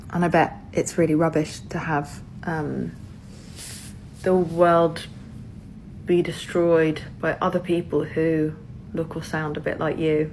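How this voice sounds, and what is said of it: British accent. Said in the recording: “judging by your accent, I assume you live in the UK”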